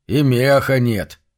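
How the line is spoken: Irritated reply. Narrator (Russian): раздраженно отвечал первый

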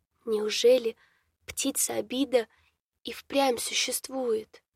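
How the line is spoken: Whispered. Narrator (Russian): шепотом произнесла дочь богов

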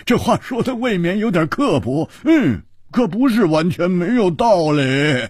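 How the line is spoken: Hearty laughter. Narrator (Chinese): 胡铁花大笑

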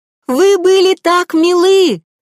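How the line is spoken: Shouted. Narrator (Russian): крикнула она

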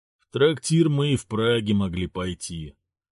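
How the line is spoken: Sigh. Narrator (Russian): вздохнул Владислав

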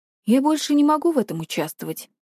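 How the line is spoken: Calm. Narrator (Russian): спокойно сказал Максимилиан

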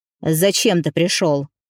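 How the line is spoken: Irritated, hidden fear. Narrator (Russian): бросил отец раздраженно, а под всем этим неуверенность и скрытый страх

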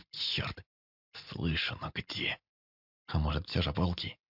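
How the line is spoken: Hoarse voice. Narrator (Russian): Голос мой звучал хрипло

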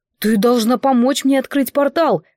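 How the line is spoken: Exclaimed. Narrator (Russian): воскликнул Горан

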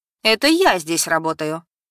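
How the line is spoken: Stern objection. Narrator (Russian): строго возразила незнакомка

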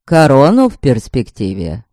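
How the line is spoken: Calm reply. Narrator (Russian): спокойно ответил Фарион-младший

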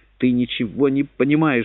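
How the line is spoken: Trembling exclamation. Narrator (Russian): воскликнул он дрожащим голосом

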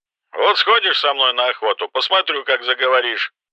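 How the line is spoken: Menacing. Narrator (Russian): грозно произнес Кэмпбелл

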